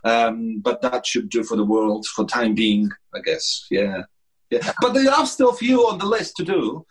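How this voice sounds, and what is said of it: Posh English accent. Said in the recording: “Your accent is beautiful ... Apparently, it's posh, they say”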